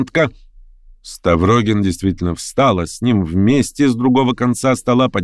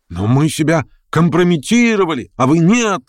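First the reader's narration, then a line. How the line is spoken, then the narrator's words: Several voices shouting. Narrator (Russian): закричало несколько голосов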